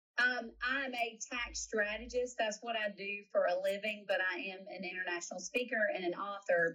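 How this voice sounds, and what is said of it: Southern US accent. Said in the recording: “I am from South Carolina. ... my accent”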